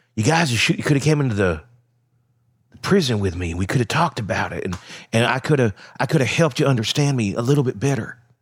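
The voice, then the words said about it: Alec Murdaugh impression. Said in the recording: “my Alec Murdaugh impression also probably doubles for George W. Bush”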